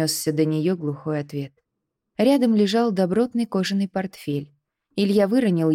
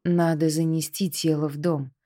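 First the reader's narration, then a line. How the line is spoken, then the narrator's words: Quiet suggestion. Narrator (Russian): тихо предложил Андрей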